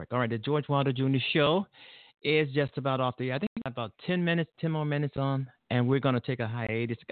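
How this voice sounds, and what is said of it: Sick, sniffling voice. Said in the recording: “I'm coming down with something. ... I'm stuttering. I'm sniffling”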